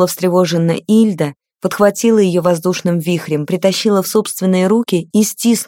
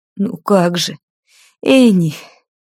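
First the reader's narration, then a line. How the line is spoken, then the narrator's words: Sobbing, tearful. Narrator (Russian): всхлипывала та, не замечая текущих по щекам слез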